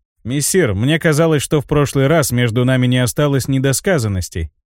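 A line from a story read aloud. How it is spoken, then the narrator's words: Calm. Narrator (Russian): спокойно произнес я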